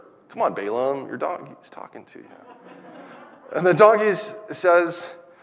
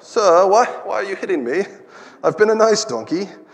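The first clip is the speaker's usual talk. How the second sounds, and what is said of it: Put-on British accent. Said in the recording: “what's the donkey's accent? Maybe he's British”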